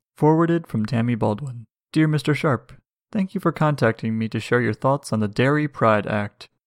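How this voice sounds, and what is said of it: Calm NPR radio announcer voice. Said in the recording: “Oh, this is NPR voice. Should I do NPR voice or audiobook voice? ... NPR voice is good.”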